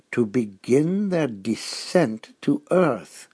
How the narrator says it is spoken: he said slowly

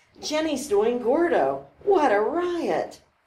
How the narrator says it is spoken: Colleagues giggling nervously

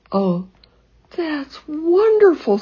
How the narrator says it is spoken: sobbed Lizzie

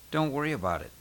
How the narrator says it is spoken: Sean murmured from his seat

